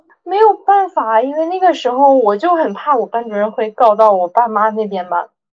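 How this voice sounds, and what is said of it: Usual voice. Nothing is said of it.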